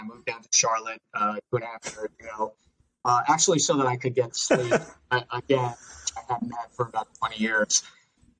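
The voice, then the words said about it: Long Island accent. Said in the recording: “I have the Long Island accent.”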